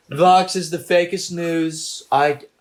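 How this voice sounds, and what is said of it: Put-on British accent. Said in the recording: “It turned into a British accent.”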